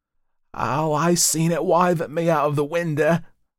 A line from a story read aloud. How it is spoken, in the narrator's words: wailed the boy